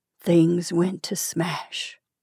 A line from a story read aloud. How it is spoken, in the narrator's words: he said quietly and sadly